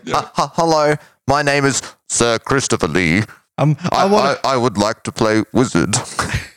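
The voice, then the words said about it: Decent Christopher Lee impression. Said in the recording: “Not a bad impersonation, wizard. Actually. That was pretty. ... It's not bad. ... It's pretty good.”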